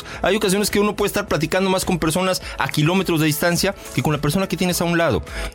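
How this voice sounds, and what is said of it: Clear, rich announcer-like voice. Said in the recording (Spanish): “voz de locutor ... una voz tan clara, tan con un matiz como el tuyo”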